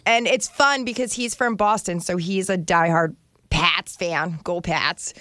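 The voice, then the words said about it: Put-on Boston accent. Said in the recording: “So that's my Boston accent. Isn't it good? ... That was the best Boston accent I've ever heard.”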